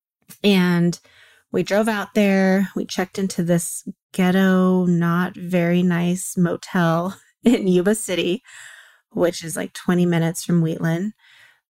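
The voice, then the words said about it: Tired, exhausted-sounding voice. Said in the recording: “I'm still kind of exhausted from it, if you could tell in my voice”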